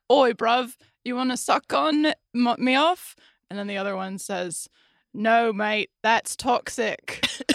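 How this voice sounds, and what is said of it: Mock British accent, Ted Lasso. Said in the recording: “here's my impression of Ted of the show Ted Lasso”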